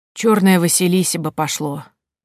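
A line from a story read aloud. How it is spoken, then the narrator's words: Sighing. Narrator (Russian): вздохнула Елена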